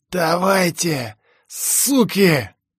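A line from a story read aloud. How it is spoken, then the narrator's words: Hoarse wheeze. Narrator (Russian): прохрипел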